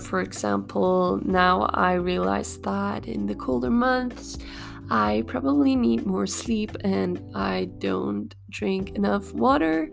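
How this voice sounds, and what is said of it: Slightly altered, sick-sounding voice. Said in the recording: “I got sick last week. That's why my voice is a little bit different”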